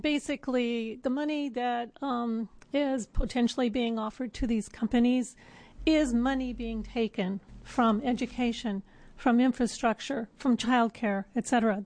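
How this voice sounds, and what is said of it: Hoarse, strained voice. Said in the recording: “I don't know why I'm losing my voice”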